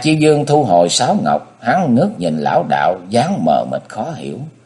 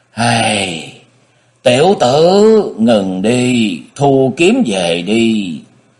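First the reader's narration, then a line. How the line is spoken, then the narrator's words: Sighing. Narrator (Vietnamese): Tịch Ứng Chân thở dài ông nói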